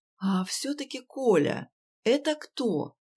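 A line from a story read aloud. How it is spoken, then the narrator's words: Quiet question. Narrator (Russian): негромко спросил Димыч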